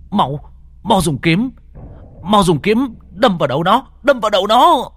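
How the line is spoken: Shouting. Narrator (Vietnamese): Lục Hải hét lên

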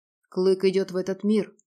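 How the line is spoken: Muffled reply. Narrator (Russian): глухо ответил Радмир

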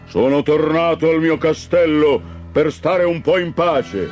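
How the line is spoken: Thundering. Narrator (Italian): Tuonò

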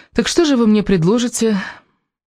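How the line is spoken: Serious, worried tone. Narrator (Russian): Элис произнесла эту фразу уже другим, серьезным, даже озабоченным тоном

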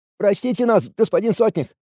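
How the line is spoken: Babbling plea. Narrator (Russian): Лепетали на земле 2 бездельников, которым Кари только что так ловко отходила своей плетью спины

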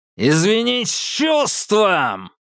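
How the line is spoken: Shouted with crazed rudeness. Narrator (Russian): Последнее слово он прокричал с поистине безумной грубостью

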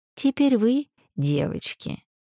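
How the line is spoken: Condescending drawl. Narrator (Russian): словно делая огромное одолжение, протянула она

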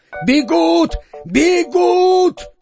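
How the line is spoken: Shouting. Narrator (Russian): обер-унтер-генерал-комиссар-сержант Козлонок закричал старому китайцу

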